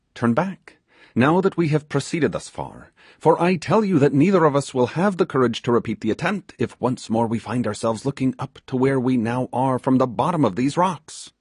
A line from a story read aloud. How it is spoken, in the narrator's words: he exclaimed